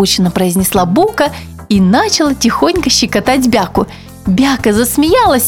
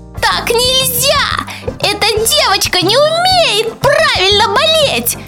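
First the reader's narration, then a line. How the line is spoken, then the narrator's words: Microbe's squeak. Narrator (Russian): запищал другой микроб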